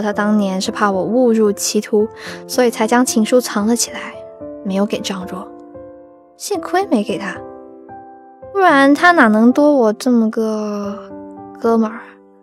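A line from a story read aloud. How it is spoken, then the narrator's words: Plain. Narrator (Chinese): 他说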